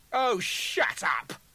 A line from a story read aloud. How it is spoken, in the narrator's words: duplicate sneered